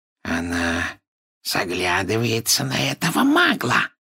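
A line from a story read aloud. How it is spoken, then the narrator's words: Spiteful hiss. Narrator (Russian): прошипел Морфин, злобно уставившись на сестру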